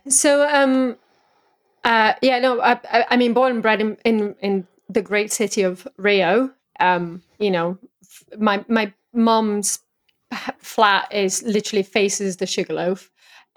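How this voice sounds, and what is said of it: Southern English accent, slightly off. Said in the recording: “you have an English accent, but it's from the south-ish, but there's something a bit off ... being a native Brazilian Portuguese speaker makes a whole lot of sense”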